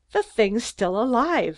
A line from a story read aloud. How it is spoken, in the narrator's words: I exclaimed, getting mad